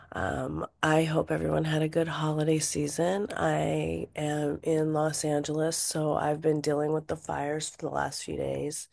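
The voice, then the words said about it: Raw, congested voice. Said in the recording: “excuse my voice is a little raw, from the smoke, and I'm a little congested”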